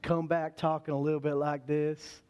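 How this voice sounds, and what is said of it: Slow, drawn-out Texan accent. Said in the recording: “Texas accent ... a little bit slower, a little bit drawn out”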